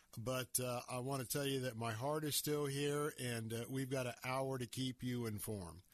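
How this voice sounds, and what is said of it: Slightly hoarse, grainy voice. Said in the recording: “my voice is sounding a little bit grainy. It's been getting a lot of work out this afternoon throughout this day.”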